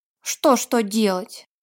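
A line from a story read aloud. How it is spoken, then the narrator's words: Grumbling. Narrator (Russian): проворчал Вилли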